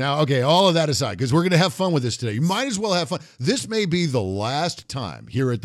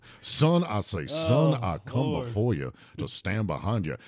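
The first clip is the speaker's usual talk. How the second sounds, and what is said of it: Old Charleston Southern accent. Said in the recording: “He got that old antebellum. ... Old Charleston accent.”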